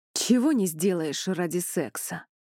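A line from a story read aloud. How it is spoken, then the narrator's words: Smirking snort. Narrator (Russian): Хмыкнув, Элай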